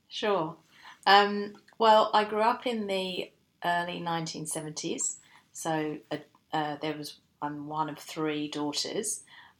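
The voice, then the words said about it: English accent. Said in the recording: “judging by your accent, you were born in the UK”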